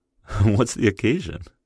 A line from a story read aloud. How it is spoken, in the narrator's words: laughed